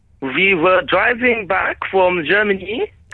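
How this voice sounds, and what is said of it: Put-on German accent. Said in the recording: “Try and do a little bit in a German accent ... This is brilliant. There you go. Instantly, it's become a brilliant... Do the whole thing in that accent”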